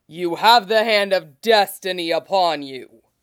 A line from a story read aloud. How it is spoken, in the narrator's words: Zeus bellows